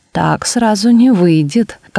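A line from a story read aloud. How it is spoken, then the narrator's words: Rueful sigh. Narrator (Russian): как бы сокрушаясь, вздохнул Бердичевский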